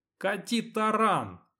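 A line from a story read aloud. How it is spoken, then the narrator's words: Shouting. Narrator (Russian): крикнул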